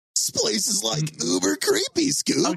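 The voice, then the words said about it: Shaggy cartoon voice impression. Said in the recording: “I can do Shaggy ... Do Shaggy.”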